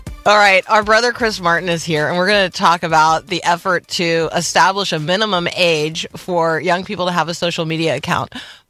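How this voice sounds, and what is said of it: Voice full of laughter. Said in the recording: “hear the laughter in my voice”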